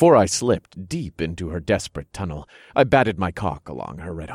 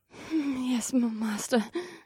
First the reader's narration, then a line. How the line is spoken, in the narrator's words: Samara said in a quivering voice, she was both nervous and eager